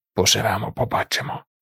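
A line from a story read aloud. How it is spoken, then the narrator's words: Hoarse old woman. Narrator (Ukrainian): прохрипіла стара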